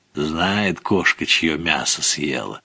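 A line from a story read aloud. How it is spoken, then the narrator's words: Muttering. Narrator (Russian): бормотал Савка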